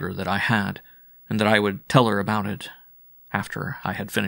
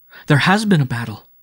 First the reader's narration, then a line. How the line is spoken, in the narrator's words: she cried